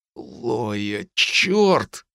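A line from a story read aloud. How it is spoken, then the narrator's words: Forced out. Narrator (Russian): выдавил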